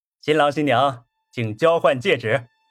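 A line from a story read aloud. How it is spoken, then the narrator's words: Announcer calling out. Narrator (Chinese): 司仪 喊道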